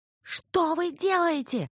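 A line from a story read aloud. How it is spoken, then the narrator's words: Shouting over wind. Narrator (Russian): заорала я, пытаясь перекричать ветер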